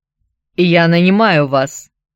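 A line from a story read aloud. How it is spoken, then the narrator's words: Curt, clipped. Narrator (Russian): отрывисто бросил Геннадий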